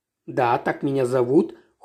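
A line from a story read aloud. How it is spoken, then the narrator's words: Cold, female. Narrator (Russian): холодно сказала я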